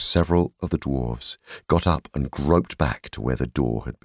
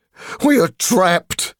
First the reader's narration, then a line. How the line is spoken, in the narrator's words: they groaned